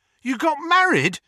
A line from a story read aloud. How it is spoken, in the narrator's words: Harry yelped